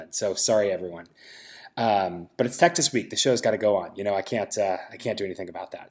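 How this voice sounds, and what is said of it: Rough congested voice from a cold. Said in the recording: “I feel terrible and have a cold ... I feel like I sound like a gremlin.”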